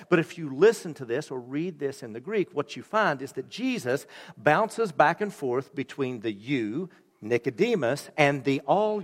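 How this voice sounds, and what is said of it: Appalachian American accent. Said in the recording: “that accent's not from Jenison ... I was raised in Appalachia”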